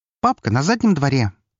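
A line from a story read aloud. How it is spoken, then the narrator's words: Boy, prompt. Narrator (Russian): тут же сообщил мальчик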